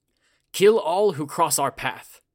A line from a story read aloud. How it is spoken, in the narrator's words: yelled